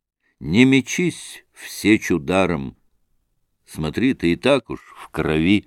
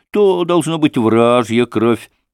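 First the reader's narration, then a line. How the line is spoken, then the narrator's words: Cheerful reply. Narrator (Russian): ответил Максим, весело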